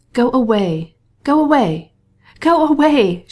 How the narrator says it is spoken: she cried, as if her words were torn from her by physical agony

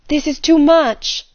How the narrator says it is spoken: she cried

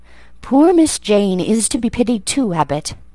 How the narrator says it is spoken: Bessie sighed and said

